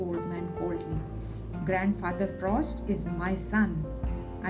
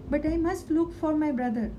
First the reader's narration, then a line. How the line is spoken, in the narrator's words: the boy exclaimed